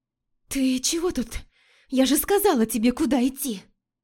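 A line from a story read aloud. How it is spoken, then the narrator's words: Hoarse, breathless with joy. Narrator (Russian): Хриплю, задыхаясь от счастья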